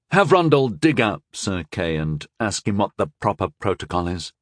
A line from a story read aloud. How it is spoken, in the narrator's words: I ordered quietly